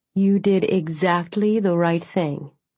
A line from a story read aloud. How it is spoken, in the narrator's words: Senator Cruz said, her voice soothing